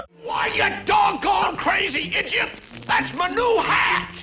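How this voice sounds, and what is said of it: Yosemite Sam's cartoon Texan drawl. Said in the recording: “that Texan drawl that you would hear from Yosemite Sam”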